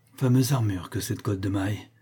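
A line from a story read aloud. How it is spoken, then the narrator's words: Weak. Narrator (French): dit-il faiblement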